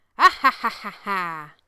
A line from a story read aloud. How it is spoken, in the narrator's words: the loud cackle